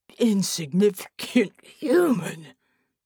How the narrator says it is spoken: Jero wheezed

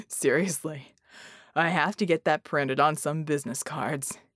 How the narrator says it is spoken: he chuckled

